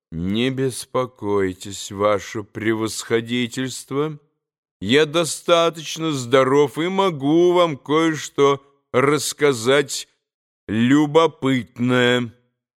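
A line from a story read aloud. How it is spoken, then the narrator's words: Calm, respectful. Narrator (Russian): ответил вдруг совсем спокойно и почтительно Иван Федорович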